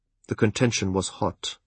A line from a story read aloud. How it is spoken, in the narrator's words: he said quietly